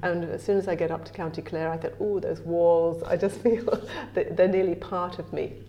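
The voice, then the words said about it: Strong English accent. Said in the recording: “my incredibly English accent”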